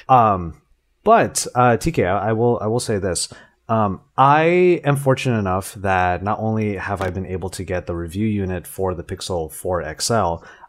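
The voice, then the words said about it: Voice worn from a night of drinking. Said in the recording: “The alcohol was a flowing, so I guess you can tell from my voice that I've been recovering from it”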